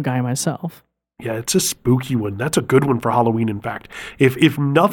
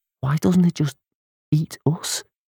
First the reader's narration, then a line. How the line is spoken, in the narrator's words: Her voice was afraid